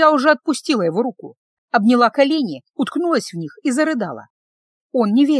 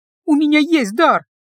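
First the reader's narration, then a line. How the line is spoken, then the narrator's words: Sobbing. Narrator (Russian): я всхлипнула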